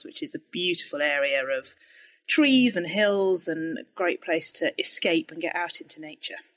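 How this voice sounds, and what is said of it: British English accent. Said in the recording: “if people can't guess from the accent? ... Not from the US. ... I'm in Woking in the UK”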